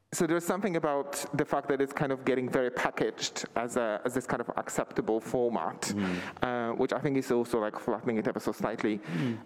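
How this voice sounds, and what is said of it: Polish accent, muffled by mask. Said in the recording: “I'm losing a bit to your mask, I think. ... I've got a Polish accent as well”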